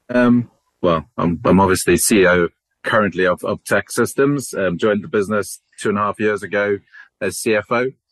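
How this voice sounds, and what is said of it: South African accent. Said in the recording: “Originally from South Africa. I'm sure most people can hear my accent ... Sometimes get mistaken for being Australian”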